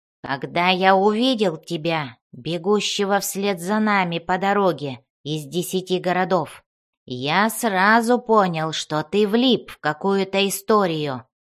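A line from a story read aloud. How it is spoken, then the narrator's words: Growled. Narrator (Russian): прорычал Бреннер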